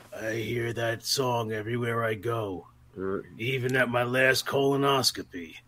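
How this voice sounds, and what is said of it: Gravelly older man's voice. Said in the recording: “in that gravelly voice”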